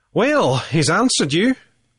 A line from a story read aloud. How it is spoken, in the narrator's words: McMurtry laughed genially